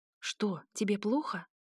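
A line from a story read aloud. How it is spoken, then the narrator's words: Whispered in unison. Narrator (Russian): шепотом и очень слаженно спросили Нейден с Лиланой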